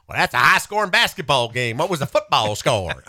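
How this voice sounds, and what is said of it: Bad put-on Southern US accent. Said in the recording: “Sorry for my bad Ole Miss Arkansas accents”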